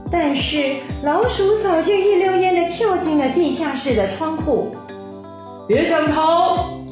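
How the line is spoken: Shout. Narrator (Chinese): 狐狸大叫

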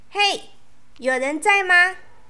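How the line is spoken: Calling out. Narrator (Chinese): 安安又对着洞口又叫了一次

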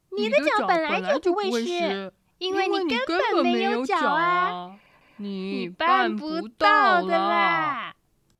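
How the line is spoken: Laughing uproariously. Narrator (Chinese): 老鼠和麋鹿笑得东倒西歪的说

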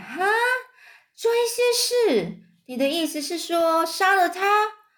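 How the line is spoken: Nervous scream. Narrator (Chinese): 芬儿紧张的尖叫起来

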